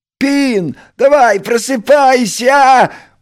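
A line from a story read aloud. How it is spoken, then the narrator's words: Cheerful shout. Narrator (Russian): бодро прокричал Крош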